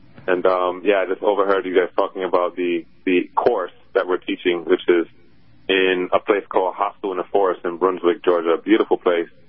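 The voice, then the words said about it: Caribbean Jamaican lilt. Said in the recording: “I can hear the lilt, the Caribbean-Jamaican lilt still coming through”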